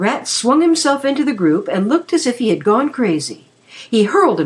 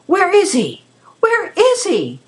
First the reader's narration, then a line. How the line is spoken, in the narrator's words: he cried